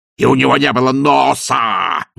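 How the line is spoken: Howling wail. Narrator (Russian): взвыл он

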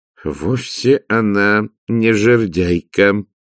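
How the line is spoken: Gloomy. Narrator (Russian): сказал Влад мрачно

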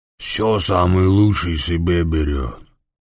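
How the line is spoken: Grumbling. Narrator (Russian): проворчал Гочи

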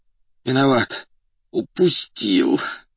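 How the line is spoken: Muffled groan. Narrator (Russian): глухо простонал

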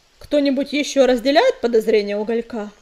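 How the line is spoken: Calm question. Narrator (Russian): спокойно спросил Огнезвезд

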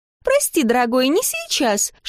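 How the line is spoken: Mischievous squeak. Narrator (Russian): шкодливо пискнул Дар

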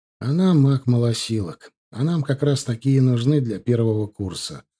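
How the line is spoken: Sigh. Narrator (Russian): вздохнул я

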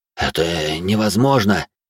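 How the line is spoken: Bewildered, a fighter. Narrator (Russian): растерянно произнес кто-то из бойцов

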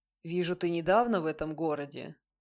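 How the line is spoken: Calm. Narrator (Russian): спокойно произнес он

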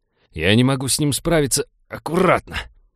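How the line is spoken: Growling. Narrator (Russian): прорычал Винни

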